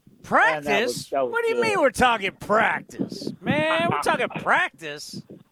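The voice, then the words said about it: Imitates another person's voice. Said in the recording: “best Allen Iverson impersonation I've ever heard”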